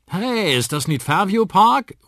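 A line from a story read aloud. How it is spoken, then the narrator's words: Called out. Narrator (German): ruft Onkel Danny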